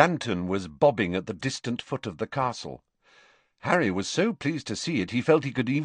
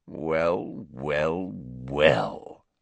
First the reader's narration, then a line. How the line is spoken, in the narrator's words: sneered Snape